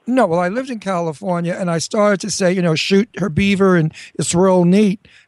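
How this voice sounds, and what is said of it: Brooklyn accent, rough textured voice. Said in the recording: “It's kind of like sandpaper against velvet... That's because I have a Brooklyn accent.”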